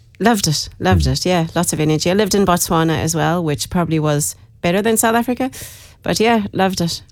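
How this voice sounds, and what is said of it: South African-tinged accent. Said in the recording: “Lived in South Africa for a long time... Oh, you got the accent... You got the accent”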